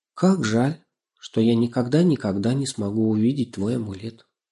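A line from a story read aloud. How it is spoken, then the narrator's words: Quiet, to herself. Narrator (Russian): она тихо, как бы про себя, произнесла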